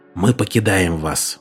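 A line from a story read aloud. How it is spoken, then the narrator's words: Whisper. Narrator (Russian): шепотом обратился Мартин к вождю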